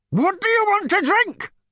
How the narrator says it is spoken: Number Two screamed

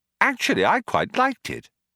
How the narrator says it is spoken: Arthur said brightly

